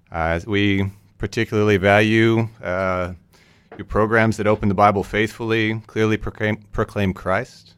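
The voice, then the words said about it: Northern US accent, Canadian-sounding. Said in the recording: “The accent. Canada? ... Northern United States. ... Pretty close to Canada, right on the border.”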